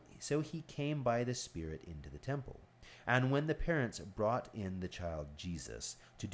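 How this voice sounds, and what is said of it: Usual voice. Nothing is said of it.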